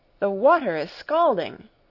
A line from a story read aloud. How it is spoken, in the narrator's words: I cried